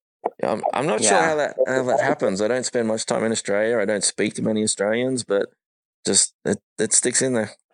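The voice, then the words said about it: Australian accent. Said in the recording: “you still got a solid accent ... you hang on to that accent”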